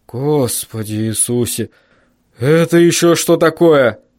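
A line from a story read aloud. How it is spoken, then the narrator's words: Shaken breathless exhale. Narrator (Russian): Выдохнул отец, повернув к окну трясущуюся голову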